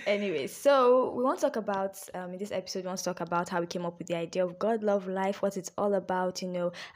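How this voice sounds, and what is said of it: Playful put-on accent. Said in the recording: “Please don't mind this accent thing I'm doing, is just something I do for fun. I do not have an accent, and I am not trying to have an accent.”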